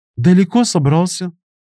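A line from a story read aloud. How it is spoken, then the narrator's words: Feigned inquiring voice. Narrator (Russian): Притворным голосом поинтересовалась она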